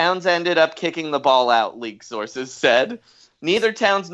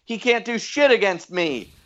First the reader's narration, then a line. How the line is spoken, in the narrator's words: Butler yelled